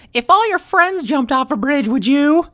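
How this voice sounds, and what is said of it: Imitates a stereotypical mother's voice. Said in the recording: “Good impression. ... you know my mom well.”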